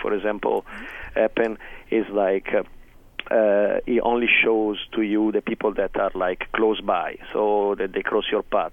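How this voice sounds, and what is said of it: Italian accent. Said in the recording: “You have this most charming bad boy Italian accent, which is fantastic ... he looks like he sounds. The typical Italian bad boy.”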